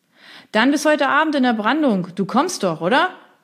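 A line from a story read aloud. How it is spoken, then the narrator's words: Loud shout over surf. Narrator (German): rief laut durch die Brandung zu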